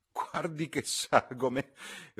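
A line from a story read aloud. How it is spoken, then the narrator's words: Laughing. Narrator (Italian): rise la signorina Levish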